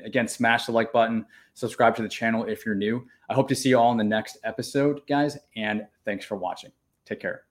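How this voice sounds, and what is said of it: Hoarse, fading voice. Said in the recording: “Losing my voice a little bit”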